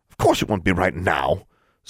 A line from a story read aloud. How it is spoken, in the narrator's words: snapped the secretary